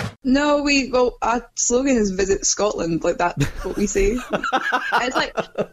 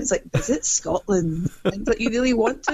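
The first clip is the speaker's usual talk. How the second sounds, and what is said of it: Imitated Scottish Highlands accent. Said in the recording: “this guy with a Highlands accent. It's a really pretty accent. ... his accent is so beautiful.”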